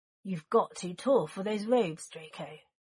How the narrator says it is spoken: Sirius muttered

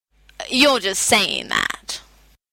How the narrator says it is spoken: I said, in my poutiest voice, a la Lucille Ball

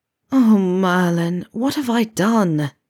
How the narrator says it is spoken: Neville groaned

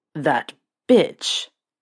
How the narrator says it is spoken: Sirius growled

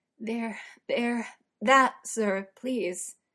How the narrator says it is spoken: he stutters out, desperate for Uther to move more, to fill him

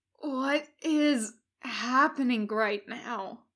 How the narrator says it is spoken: Washington gasps

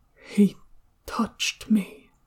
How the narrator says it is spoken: Even softer, almost as if he were alone, Shenwei murmured

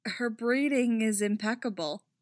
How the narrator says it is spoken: Hera says, although the effort to repress her laughter is nearly choking her now

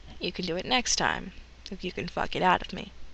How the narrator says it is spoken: Dean says

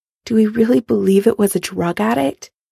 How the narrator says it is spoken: Karen asks quietly

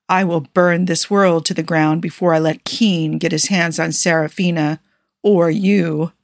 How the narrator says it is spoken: Jafar growled

